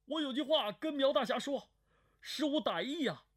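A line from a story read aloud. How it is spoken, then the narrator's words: Calling out. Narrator (Chinese): 张云飞的声音叫道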